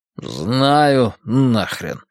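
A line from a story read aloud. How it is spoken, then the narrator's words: Through gritted teeth. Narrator (Russian): процедил Нитый Сефни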